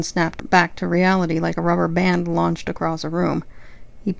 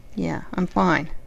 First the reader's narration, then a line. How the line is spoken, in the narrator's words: he muttered